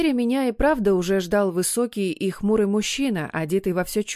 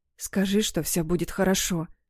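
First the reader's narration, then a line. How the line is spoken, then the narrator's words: Whisper. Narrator (Russian): прошептала она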